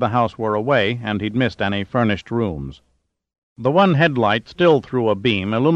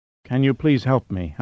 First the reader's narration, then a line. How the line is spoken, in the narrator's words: Hanamura begged feebly